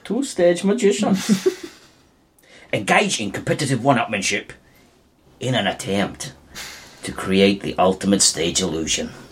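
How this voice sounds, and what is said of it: Mixed, patchy American accent imitation. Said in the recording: “Andy Serkis's American accent ... There's a bit of every accent.”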